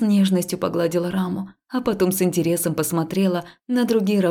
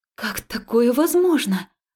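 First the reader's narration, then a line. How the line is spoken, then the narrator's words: Astonished breathless exhale. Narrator (Russian): пораженно выдохнула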